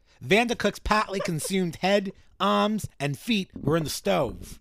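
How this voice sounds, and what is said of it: Bad put-on Boston accent. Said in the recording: “this bad Boston accent that I was doing”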